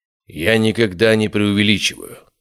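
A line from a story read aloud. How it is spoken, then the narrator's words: Cold. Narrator (Russian): сказал он холодно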